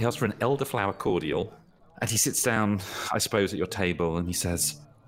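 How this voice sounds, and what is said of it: Usual voice. Nothing is said of it.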